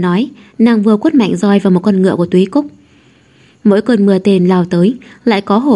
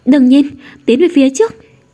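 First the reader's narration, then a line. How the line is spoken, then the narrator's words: Loud shout. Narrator (Vietnamese): Xính Đình hét lớn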